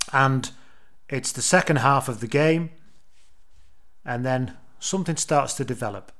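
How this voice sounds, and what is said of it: Usual voice. Nothing is said of it.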